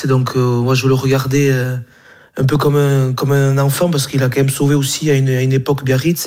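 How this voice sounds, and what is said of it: Slight Basque French accent. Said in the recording (French): “il est basque ... il y a un petit accent”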